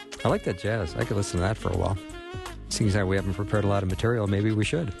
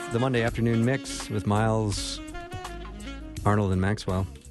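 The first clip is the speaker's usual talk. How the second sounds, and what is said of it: Smooth late-night DJ voice. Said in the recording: “late night DJ voice ... Very smooth.”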